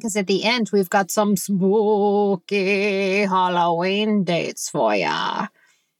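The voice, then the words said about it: Shaky spooky voice. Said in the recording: “You do the shaky voice.”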